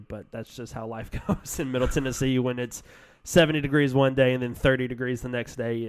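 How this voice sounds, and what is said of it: Nasal, congested voice. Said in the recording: “I'm sorry for the nasally sound... if I sound really nasally... If I cough”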